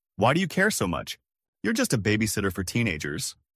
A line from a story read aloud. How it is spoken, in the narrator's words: she scoffed and said